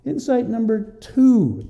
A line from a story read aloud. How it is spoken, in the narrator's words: he cries out in hope